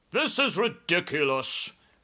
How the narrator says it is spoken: cried the air marshal

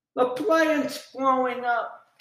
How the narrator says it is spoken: Joe gasped

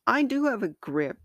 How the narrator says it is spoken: shouted

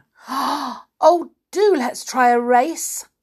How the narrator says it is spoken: cried Winks

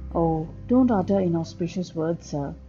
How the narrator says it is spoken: the postman said

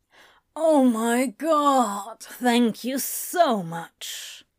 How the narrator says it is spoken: Crowley moaned with satisfaction

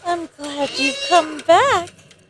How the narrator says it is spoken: she said excitedly

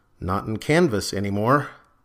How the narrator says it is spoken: muttered

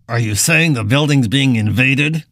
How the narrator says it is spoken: Buck asked with a dismissive snort

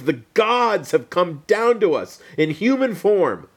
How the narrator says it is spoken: the crowd, they shouted in Greek

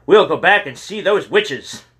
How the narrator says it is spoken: James yelled

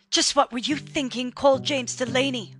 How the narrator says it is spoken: shouted Vera Delaney, her tear-soaked eyes bloodshot

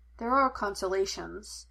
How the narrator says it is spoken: Henry said gently

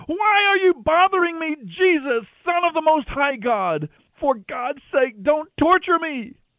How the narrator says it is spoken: He gave a terrible scream, shrieking

